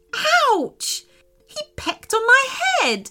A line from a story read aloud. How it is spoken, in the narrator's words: cried Sophia